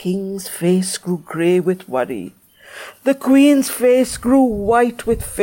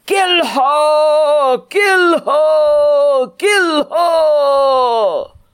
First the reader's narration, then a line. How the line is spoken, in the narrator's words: the angels of the land shouted in one voice